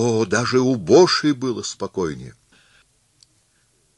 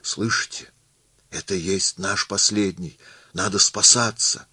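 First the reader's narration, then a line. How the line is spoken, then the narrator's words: Frightened whisper. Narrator (Russian): испугался и начал шептать мистеру Кулю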